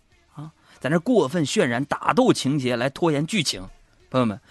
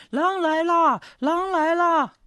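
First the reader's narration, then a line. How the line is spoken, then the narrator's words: Shouting. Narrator (Chinese): 放羊娃又喊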